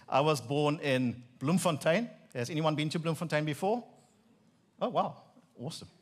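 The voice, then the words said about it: Afrikaans South African accent. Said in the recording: “So I am a Afrikaner, believe it or not. You'll maybe understand my accent now.”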